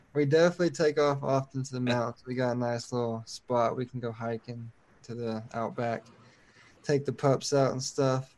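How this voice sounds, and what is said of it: Speaks with a regional accent. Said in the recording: “With that accent ... with that accent”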